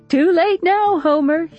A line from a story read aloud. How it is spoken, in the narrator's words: she says and laughs